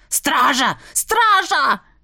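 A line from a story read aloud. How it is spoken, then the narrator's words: Baron bellowing. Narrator (Russian): заорал барон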